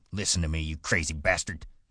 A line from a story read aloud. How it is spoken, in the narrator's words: he said fiercely